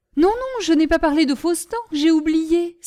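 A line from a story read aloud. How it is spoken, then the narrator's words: Exclaimed. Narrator (French): s'écria Gribouille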